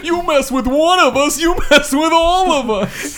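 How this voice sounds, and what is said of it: Put-on New York accent. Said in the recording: “my New York impression”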